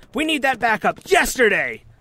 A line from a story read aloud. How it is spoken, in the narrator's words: I shout